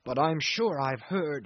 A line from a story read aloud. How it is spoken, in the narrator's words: he persisted, raising his voice for the first time